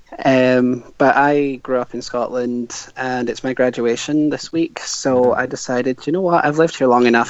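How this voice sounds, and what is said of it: Scottish accent. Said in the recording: “you sound Scottish.”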